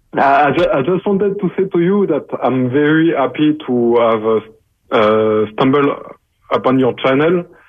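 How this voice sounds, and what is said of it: French accent speaking English. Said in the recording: “from France ... I apologize for my accent.”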